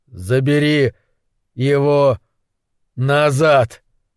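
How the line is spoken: Forced through clenched teeth. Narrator (Russian): выдавил сквозь сжатые зубы

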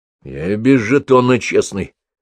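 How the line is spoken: Displeased grumble. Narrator (Russian): недовольно пробурчал Кока

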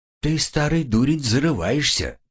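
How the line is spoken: Calm. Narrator (Russian): спокойно проговорил второй скрав

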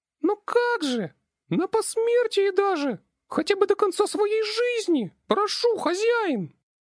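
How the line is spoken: Squeaking while squirming. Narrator (Russian): Начала пищать Бааленка, извиваясь в моих руках

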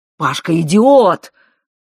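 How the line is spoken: Shouted, then coughing. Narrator (Russian): выкрикнул отец и вдруг закашлялся

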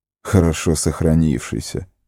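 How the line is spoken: Snorting. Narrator (Russian): фыркнул он

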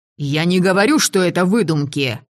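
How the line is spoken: Barking. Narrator (Russian): рявкнул Даху

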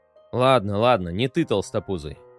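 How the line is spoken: Contemptuous muttering. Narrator (Russian): презрительно пробормотал Ипистон

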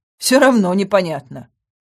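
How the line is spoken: Snorting. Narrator (Russian): хмыкнула я

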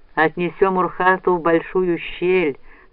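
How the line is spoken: Plain. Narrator (Russian): сказал карась

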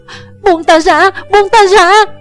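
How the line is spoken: Screaming. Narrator (Vietnamese): Thủy Sanh vẫn kêu gào

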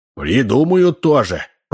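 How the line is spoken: Grumbled. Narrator (Russian): проворчала Ксения

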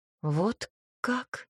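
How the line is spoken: Confused mutter. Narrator (Russian): растерянно пробормотала

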